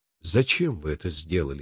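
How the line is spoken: Soft question. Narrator (Russian): мягко спросил я

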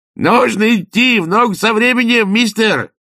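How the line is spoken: Joyful yelling. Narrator (Russian): радостно завопил Людзе

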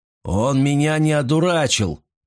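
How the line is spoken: Grumbled. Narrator (Russian): проворчал Аган Хан

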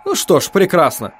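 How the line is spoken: Cheerful. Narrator (Russian): весело сказал Холл

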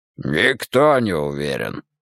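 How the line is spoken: Growl. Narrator (Russian): рыкнул Тул

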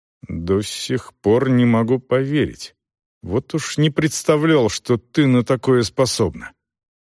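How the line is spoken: Mumble. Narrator (Russian): Селдон пробормотал

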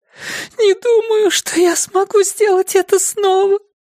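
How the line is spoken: Sobbing. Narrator (Russian): Джина вновь зарыдала

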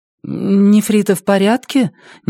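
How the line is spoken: Uncertain question. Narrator (Russian): неуверенно спросила Елея

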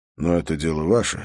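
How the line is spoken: Calm. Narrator (Russian): спокойно сказал Холт

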